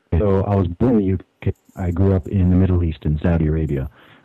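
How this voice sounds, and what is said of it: American-sounding accent. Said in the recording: “you sound like you're American”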